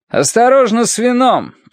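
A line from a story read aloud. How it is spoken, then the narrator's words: Shouting. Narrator (Russian): крикнул Бицан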